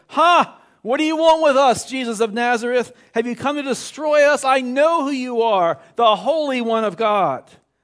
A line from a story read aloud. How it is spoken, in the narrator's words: cried at the top of his voice